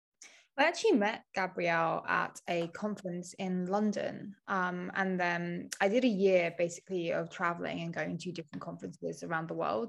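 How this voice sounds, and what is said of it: Calm British accent. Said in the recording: “such a lovely calming British accent”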